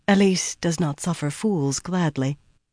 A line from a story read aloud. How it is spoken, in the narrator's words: Almost like an afterthought, she added, even more quietly